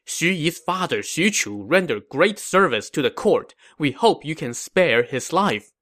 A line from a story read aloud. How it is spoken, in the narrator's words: His officers all pleaded with him, saying